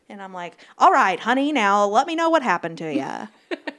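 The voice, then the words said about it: Old-timey radio announcer voice. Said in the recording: “That's my old-timey radio voice.”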